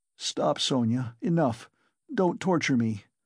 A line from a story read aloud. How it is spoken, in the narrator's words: he begged her miserably